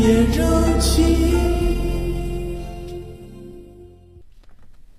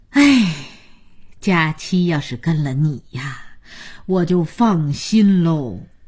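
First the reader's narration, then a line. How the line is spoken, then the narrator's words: Old woman sighing. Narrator (Chinese): 姥姥叹口气说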